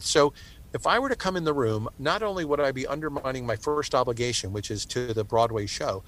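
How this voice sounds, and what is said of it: Strained, worn-out voice. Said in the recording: “I have a cold, so my voice is like shot to begin with ... I would also not sound the best”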